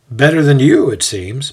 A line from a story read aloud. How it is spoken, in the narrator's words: Marcus playfully says